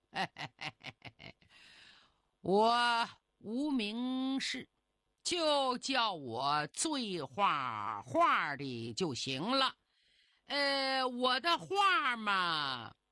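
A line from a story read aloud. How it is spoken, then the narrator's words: Drunk man chuckling. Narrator (Chinese): 那醉汉呵呵一笑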